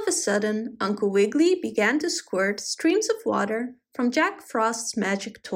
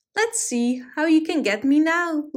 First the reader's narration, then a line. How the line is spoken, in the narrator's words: laughed the bunny